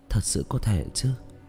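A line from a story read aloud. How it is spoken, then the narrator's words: Muttering. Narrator (Vietnamese): Tạ Vũ Tình lẩm bẩm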